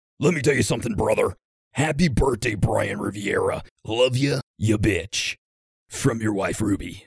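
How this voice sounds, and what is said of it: Hulk Hogan impression. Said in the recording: “in a Hulk Hogan voice ... That was pretty good.”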